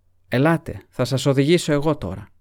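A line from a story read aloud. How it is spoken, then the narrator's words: Shouted. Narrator (Greek): φώναξε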